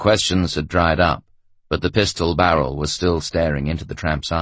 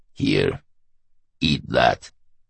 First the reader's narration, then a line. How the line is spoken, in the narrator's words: the brigadier snarled